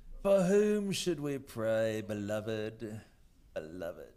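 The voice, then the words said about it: Put-on posh English accent. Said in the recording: “Don't I just sound smarter when you say it like that? ... Say anything with an English accent, it just sounds smarter.”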